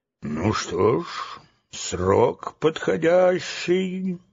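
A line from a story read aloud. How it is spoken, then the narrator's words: Thoughtful mutter. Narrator (Russian): задумчиво пробормотал Гурикап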